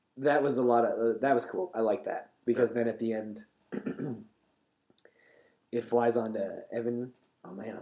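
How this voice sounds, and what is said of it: Strained, fading voice. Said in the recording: “I'm losing my voice. ... I'm losing my voice, sort of.”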